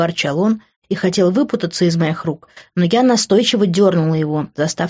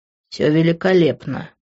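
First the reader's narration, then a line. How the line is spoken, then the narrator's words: Through gritted teeth. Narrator (Russian): процедил он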